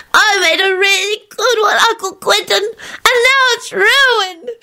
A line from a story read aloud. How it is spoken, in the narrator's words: she sobbed